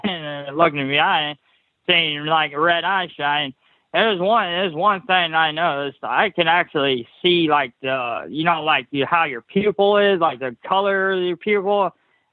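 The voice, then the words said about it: Missouri accent. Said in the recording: “I love the way you speak. I could definitely listen to you all day long. And I don't know if it's the accent there in Missouri”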